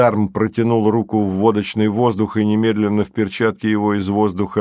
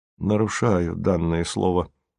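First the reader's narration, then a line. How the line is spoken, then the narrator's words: Sad smiling tone. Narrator (Russian): грустно улыбнулся Красин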